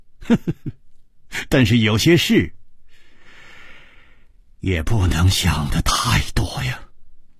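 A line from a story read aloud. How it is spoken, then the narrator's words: Wry laugh. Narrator (Chinese): 楚留香苦笑着说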